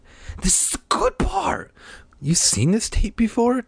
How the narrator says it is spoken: Diane shrieked

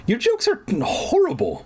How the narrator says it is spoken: Mom exclaimed

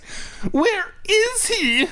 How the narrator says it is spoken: I cried shrilly like a little bitch

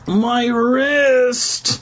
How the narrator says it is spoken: Mark moaned from nearby

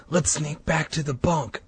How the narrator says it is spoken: I whispered

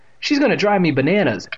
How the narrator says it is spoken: Evan exclaimed

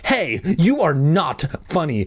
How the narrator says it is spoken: I screamed angrily

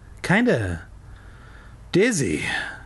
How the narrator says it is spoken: Zack replied weakly

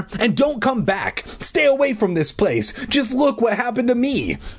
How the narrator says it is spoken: I shouted at her

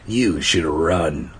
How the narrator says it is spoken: he grunted

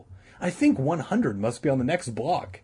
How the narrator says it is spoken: Todd called, eagerly

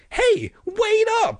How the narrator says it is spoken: I shouted anxiously

